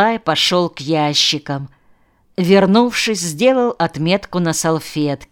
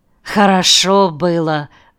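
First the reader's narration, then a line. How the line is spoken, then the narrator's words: Sigh. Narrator (Russian): вздохнул Авдей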